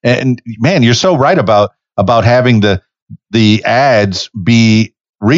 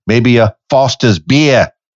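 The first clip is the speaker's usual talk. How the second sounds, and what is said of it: Put-on Australian accent. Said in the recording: “I did my Australian accent for you”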